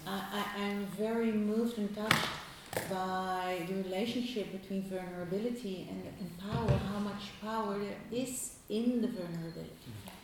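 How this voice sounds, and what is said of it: Speaking louder. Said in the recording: “say it louder, please?”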